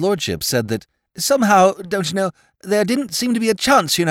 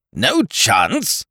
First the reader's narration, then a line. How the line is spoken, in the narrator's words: cried Sir Thomas